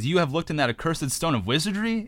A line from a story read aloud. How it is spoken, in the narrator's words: exclaimed Gimli, with fear and astonishment in his face